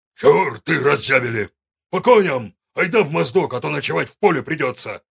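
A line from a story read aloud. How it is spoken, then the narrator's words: Loud barking shout. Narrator (Russian): Гаркнул он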